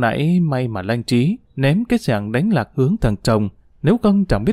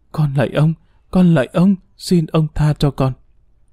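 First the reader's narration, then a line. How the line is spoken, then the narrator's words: Frightened trembling moan. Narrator (Vietnamese): tiếng rên rỉ, run rẩy, sợ hãi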